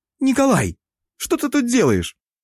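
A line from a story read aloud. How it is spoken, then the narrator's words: Exclaiming holy woman. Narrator (Russian): Перестав визжать и окончательно проснувшись, воскликнула блаженная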